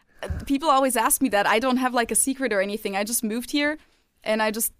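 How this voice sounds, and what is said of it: American English accent. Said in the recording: “how did you get your American accent?”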